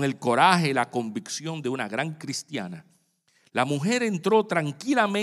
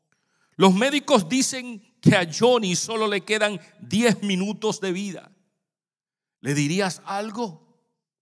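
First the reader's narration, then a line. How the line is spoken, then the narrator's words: Heartbroken mother exclaiming. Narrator (Spanish): la madre del niño, con el corazón roto, exclamó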